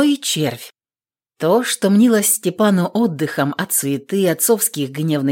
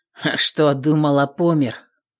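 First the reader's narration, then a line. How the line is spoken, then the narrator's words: Smug grunt. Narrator (Russian): Хмыкнул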